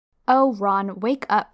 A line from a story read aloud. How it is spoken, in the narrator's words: snapped Hermione